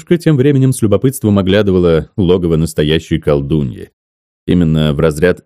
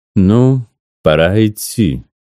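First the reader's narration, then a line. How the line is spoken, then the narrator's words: Grave, sepulchral old voice. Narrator (Russian): произнесла баба Циля с могильным голосом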